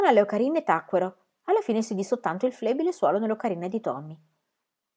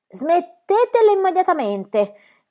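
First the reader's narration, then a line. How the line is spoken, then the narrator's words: Policeman shouting. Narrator (Italian): gridò il poliziotto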